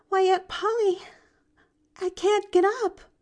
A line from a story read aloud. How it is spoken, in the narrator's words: moaned, falling back on the pillow